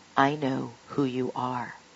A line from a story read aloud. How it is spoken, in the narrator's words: boldly whispered